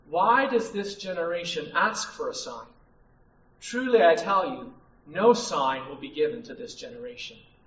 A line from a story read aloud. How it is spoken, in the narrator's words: He sighed deeply in his spirit and said